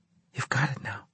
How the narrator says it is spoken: she said in a hushed tone

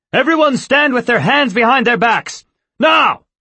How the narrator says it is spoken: shouted

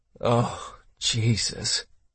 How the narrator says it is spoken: Ninomiya muttered

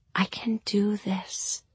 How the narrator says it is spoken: I said gently

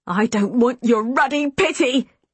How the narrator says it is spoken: he shouted

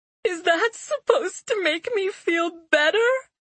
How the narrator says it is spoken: Phineas wailed

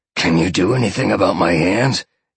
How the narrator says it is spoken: he growled

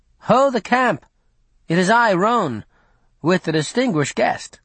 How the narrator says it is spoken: called out

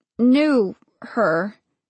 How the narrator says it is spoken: she said slowly

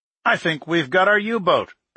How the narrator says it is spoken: Kohler said

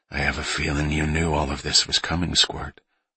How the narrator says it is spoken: her father said softly

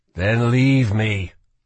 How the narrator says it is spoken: Kell would groan

